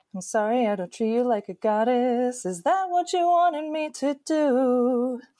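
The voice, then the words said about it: Sings in a cartoon character's voice. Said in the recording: “your impression ... I'm going to try and do the Marceline song”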